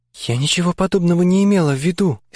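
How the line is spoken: Frightened strained whisper. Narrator (Russian): испуганным шепотом выдавила Гермиона

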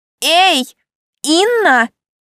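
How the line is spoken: Frustrated yelling. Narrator (Russian): Наташа орала мне в лицо, досадуя на отсутствие реакции

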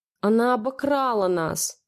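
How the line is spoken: Dull flat voice. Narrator (Russian): говорит мама тусклым голосом

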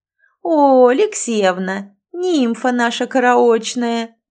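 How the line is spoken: Sing-song. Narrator (Russian): нараспев выдала пельц

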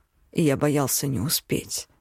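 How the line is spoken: Barely audible. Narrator (Russian): произносит он чуть слышно

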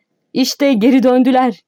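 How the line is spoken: Shouted. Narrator (Turkish): diye bağırdı

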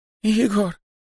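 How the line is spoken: Sobbing speech. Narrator (Russian): говорит всхлипывая

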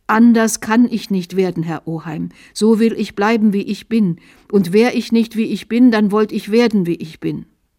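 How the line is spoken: Calling out. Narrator (German): rief er

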